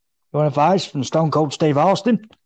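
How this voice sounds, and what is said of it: Imitates another person's voice. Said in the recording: “my Steve Austin impression ... Has to pretend to be Stone Cold”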